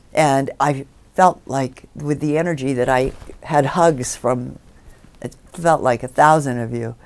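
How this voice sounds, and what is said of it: Low, worn-sounding voice. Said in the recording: “my voice is low”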